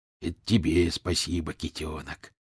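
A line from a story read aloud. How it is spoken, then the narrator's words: Muttering fox. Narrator (Russian): пробормотал лис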